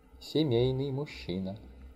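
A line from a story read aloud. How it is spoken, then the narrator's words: Woman muttering. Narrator (Russian): только и пробормотала какая-то женщина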